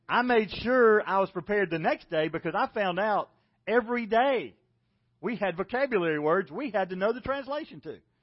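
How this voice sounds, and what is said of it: South Carolina accent. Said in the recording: “"I love your accent." ... I'm from South Carolina. This is the way people talk. ... You talk funny.”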